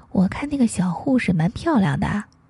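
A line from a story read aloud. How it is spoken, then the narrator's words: Very quiet. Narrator (Chinese): 他小小声的说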